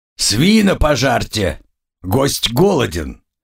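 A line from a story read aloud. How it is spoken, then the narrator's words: Growled. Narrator (Russian): рыкнул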